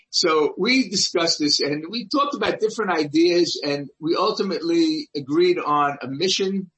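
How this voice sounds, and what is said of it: Brooklyn accent. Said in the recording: “a Brooklyn boy with a Brooklyn accent”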